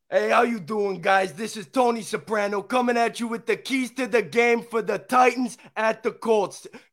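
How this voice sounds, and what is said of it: Put-on Sopranos mobster accent. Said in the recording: “in a Sopranos accent”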